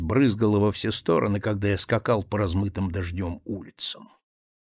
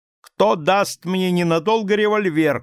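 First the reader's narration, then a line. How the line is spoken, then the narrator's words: Shout. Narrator (Russian): крикнул я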